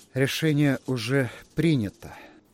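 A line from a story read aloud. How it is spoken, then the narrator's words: Weary. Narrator (Russian): устало ответил Торн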